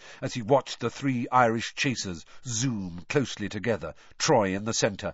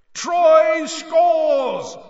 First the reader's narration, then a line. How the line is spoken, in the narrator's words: roared Bagman